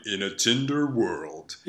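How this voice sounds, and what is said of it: Deep movie-trailer announcer voice. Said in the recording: “the guy with the deep voice doing the trailer for it”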